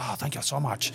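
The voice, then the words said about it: Put-on Asian accent. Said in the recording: “with the Asian accent.”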